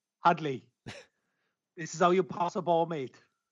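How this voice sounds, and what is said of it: Weak attempt at Kiwi accent. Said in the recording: “that was his Kiwi accent. ... Neither of them have got that accent. ... Sorry, I can't do that sort of hybrid Kiwi accent. I'm just no good at it.”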